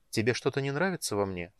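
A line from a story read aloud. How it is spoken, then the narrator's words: Calm question. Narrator (Russian): спокойно спросила Гея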